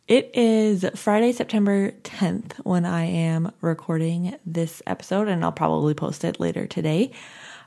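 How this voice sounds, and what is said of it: Tired-sounding voice. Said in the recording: “I am a little tired. I'm going to guess that you can probably hear that in my voice a little bit”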